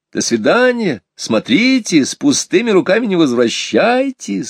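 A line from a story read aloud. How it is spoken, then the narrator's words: Laughing shout, mother. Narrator (Russian): смеясь, кричала вдогонку мама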